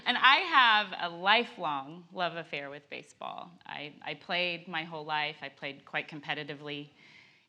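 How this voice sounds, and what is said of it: Slightly croaky voice. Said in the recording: “my voice is a little croaky”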